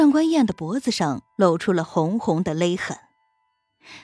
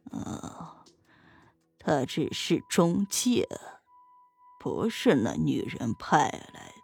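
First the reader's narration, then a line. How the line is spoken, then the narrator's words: Murmuring to himself. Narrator (Chinese): 房东……喃喃自语道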